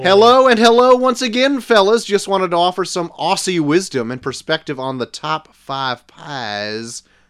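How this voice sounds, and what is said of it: Unconvincing attempt at Australian accent. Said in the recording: “Why am I saying it like that? ... I don't think that's an Aussie accent.”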